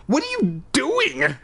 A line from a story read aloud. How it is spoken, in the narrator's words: I cried